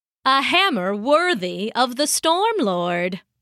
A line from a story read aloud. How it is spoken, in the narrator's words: said